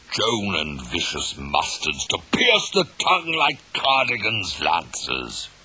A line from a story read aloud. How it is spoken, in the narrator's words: roared Henry